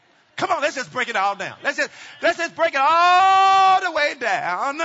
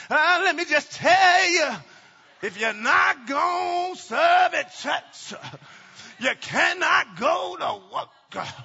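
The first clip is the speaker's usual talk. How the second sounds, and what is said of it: Preacher voice. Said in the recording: “Maybe I can put on my preacher voice and you'll hum.”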